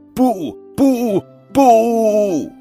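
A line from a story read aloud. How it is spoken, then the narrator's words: Incessant loud shouting. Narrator (Chinese): 他还是不停地大声叫道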